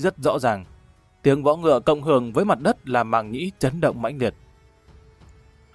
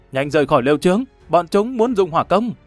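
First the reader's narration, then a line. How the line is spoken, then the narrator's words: Alarmed loud shout. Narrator (Vietnamese): Sắc mặt của hắn biến đổi, dùng tiếng đột quyết thét lớn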